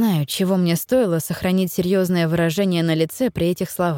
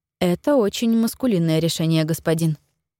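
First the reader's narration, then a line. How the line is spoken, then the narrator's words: Meek, suppressing smile. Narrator (Russian): ответила я максимально покорным тоном, пряча невольную улыбку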